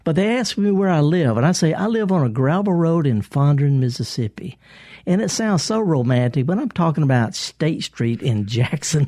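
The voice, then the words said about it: Thick Southern US accent. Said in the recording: “I'm a Southerner and I got kind of a thick accent”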